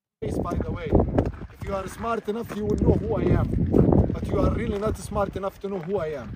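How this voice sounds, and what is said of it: Middle Eastern-sounding accent. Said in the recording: “The accent would lead you to believe from the Middle East.”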